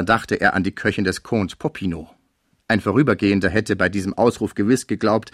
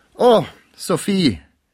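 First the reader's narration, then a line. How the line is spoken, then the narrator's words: Calling out. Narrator (German): rief Pons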